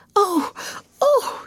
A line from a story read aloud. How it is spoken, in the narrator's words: she cried under her breath